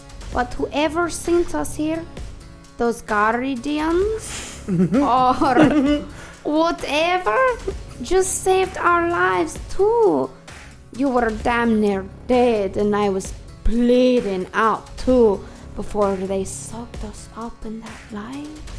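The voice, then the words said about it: Put-on Russian accent. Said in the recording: “So that's Russian, right? ... I was going with the Russian accent.”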